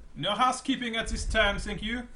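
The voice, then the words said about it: Vaguely French put-on accent. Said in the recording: “It's weird, vaguely French accents.”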